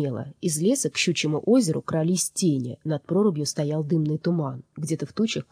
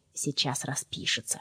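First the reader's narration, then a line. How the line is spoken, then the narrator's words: Whispered. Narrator (Russian): шепнула она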